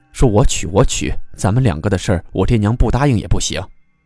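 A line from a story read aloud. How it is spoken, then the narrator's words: Hasty correction. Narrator (Chinese): 三少爷就急忙改口的说道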